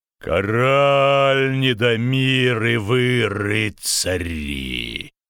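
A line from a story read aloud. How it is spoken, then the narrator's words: Trumpet-like roar. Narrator (Russian): Зарычал он так, словно это была латунная труба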